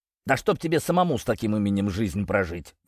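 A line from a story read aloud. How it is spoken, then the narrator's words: Joking snap. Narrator (Russian): в шутку огрызнулся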